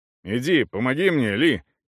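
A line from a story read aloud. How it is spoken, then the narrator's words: Gruff grumble. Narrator (Russian): немного грубо проворчал Эйб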